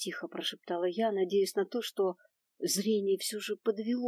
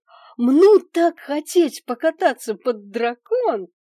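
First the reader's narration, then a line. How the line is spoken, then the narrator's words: Joyful shrill squeal, close. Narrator (Russian): Радостно верещал эта дуреха у меня над ухом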